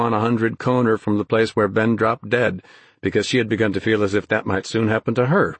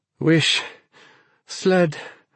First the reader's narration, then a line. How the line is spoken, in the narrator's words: panted